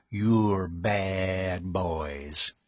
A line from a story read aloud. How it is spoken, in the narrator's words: he told them with a drawl of the adjective